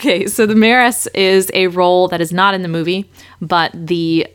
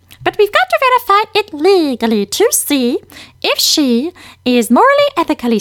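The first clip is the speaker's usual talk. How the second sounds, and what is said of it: Munchkin character voice. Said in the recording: “do the Munchkin voice?”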